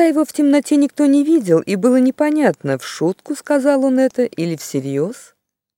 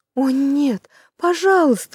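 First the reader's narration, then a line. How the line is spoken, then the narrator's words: Pleading. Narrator (Russian): взмолилась Джилл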